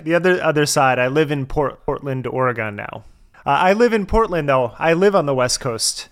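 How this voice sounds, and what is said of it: American accent. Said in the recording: “I'm detecting the accent, and I feel like you're from America somewhere. I'm going to guess like California-ish.”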